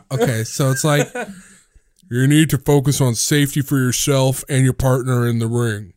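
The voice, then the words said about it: Disguised witness-protection style voice. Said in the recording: “how do you do a Big Show voice? ... You sound like the witness protection voice”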